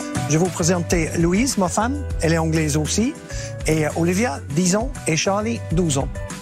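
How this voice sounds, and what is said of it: Slight English accent in French. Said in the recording (French): “Peut-être vous avez entendu un petit accent, je suis anglais”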